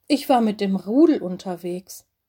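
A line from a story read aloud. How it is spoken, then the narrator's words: Plain. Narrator (German): antwortete Mino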